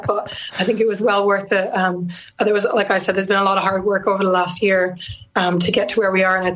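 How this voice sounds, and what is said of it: Hoarse, strained voice. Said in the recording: “As you can hear in my voice ... I haven't got my voice back yet”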